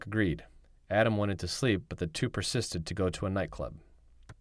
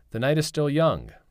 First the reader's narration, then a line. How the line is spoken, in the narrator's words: Benjamin shouted